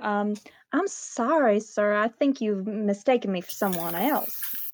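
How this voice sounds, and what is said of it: Character voice with a good accent. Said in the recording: “You did preempt us about the accent, and it is good.”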